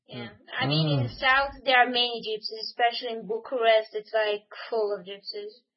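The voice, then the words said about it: Romanian accent. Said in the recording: “I guessed your accent was Romanian.”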